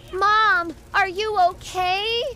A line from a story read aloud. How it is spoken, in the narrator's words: panicked and called out